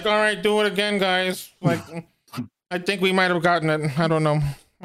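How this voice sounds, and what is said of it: Impression of George Lucas. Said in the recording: “George Lucas sitting behind a thing just going like ... Great impression.”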